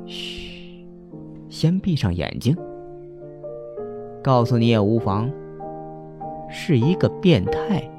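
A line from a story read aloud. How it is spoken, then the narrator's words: Shushing, then quiet. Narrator (Chinese): 方墨嘘了一声，小声说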